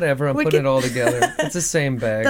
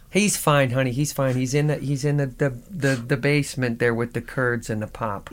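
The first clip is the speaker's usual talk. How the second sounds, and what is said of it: Put-on Minnesota accent. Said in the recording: “Fargo is a true telling of the accent that comes straight out of Minnesota”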